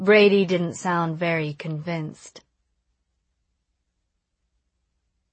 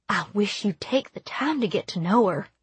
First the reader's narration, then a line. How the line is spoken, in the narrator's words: dropping her voice a little